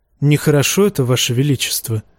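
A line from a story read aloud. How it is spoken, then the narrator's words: Quiet. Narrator (Russian): тихо произнес сир Гарлан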